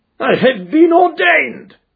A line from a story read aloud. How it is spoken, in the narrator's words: cried the old rascal